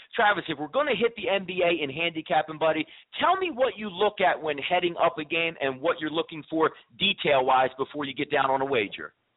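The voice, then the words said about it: Northern New Jersey accent. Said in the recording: “You can hear the dialect for myself. I'm northern New Jersey, in that central Jersey range there.”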